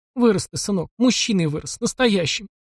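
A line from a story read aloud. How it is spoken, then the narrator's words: Sobbing. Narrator (Russian): всхлипнула Глафира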